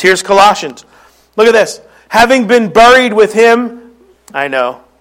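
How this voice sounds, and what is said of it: Philadelphia accent. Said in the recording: “that's my Philly accent. ... Buried, buried like, a, like a berry, strawberry.”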